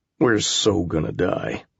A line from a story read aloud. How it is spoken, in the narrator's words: I muttered